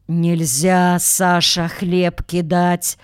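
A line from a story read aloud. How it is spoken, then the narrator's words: Muffled, older woman. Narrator (Russian): глухо сказала тетя Окся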